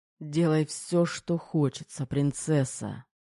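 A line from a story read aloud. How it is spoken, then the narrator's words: Moaning. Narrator (Russian): простонал Терехов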